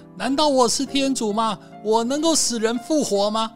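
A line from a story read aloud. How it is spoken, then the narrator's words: Crying out. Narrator (Chinese): 呼喊说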